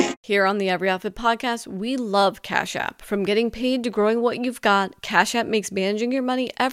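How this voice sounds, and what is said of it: Usual voice. Nothing is said of it.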